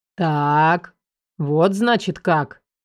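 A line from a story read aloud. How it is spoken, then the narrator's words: Meaningful drawl. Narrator (Russian): многозначительно протянул отец Мирослава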